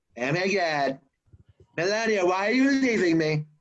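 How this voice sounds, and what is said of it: Imitates another person's voice. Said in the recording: “you can be a Trump impersonator.”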